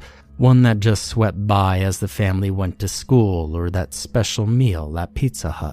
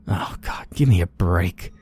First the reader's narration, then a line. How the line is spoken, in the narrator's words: she muttered